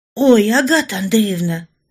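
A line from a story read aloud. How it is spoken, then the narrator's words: Female exclamation. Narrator (Russian): воскликнула Генриетта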